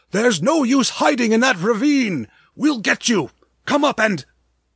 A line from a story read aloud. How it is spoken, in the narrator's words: The sound of the voices was drowned out by the roar of the car's motor